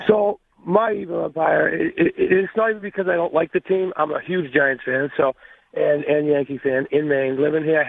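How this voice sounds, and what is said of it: Congested, allergy-affected voice. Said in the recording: “I have to excuse my voice. My allergies kicked right in this morning.”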